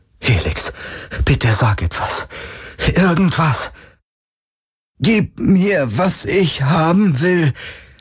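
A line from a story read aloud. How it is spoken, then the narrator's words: Strained, marble-cold voice. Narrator (German): sagte Kirai mit angestrengter Stimme, kalt wie Marmor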